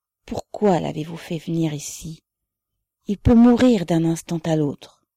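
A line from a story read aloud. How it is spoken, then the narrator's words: Quiet, reproachful. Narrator (French): dit Sophie à Ribine d'un ton de reproche et à voix basse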